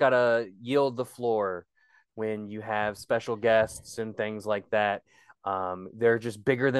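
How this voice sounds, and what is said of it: Usual voice. Nothing is said of it.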